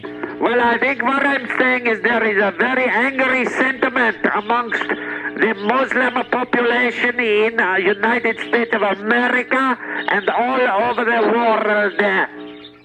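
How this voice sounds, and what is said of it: Heavy foreign accent. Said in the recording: “You do have a heavy accent”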